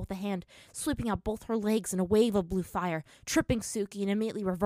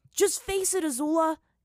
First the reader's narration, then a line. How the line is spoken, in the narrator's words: Aang yelled at her